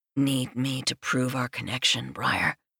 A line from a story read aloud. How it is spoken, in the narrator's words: I murmur into the shell of her ear